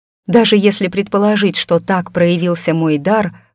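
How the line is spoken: Sighing. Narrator (Russian): вздохнула я

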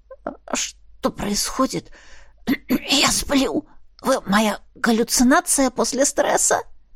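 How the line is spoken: Hoarse croak. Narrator (Russian): Удалось мне прохрипеть

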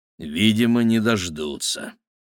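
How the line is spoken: Gloomy reply. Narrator (Russian): мрачно ответил Игорь

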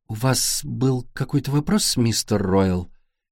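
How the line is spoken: Quiet question. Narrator (Russian): тихим голосом спрашивает мисс Манн

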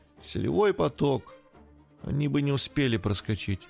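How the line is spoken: Calm. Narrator (Russian): спокойно произнесла жена

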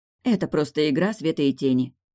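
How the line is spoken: Regretful mutter. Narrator (Russian): буркнула она, пожалев, что была настолько грубой к человеку, который ей так сильно помог

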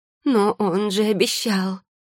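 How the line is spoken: Repeating. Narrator (Russian): повторила она

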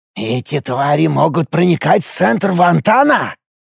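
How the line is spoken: Astonished whisper. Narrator (Russian): изумленно прошептал Тантук

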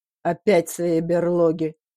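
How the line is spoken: Hoarse voice from kitchen. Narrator (Russian): донесся из кухни сиплый голос дяди Геннадия

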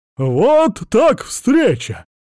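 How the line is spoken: Surprised exclamation. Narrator (Russian): воскликнул Мякин, увидев меня

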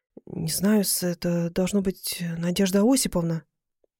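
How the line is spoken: Confused mumble. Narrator (Russian): растерянно пробормотал

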